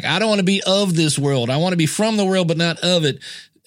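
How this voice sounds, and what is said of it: Put-on Southern accent. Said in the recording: “he has a Southern accent.”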